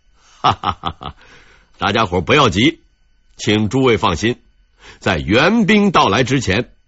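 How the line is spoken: Calm, smiling. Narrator (Chinese): 戚继光呢，却十分镇定，笑着对部下说道

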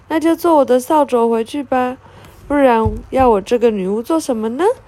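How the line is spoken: Laughing witch. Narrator (Chinese): 佩特娜拉笑着说

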